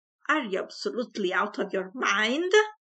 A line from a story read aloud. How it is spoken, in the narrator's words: roared Mr